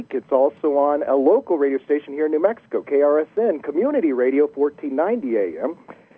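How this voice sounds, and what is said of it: Deep American accent. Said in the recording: “my deep American accent”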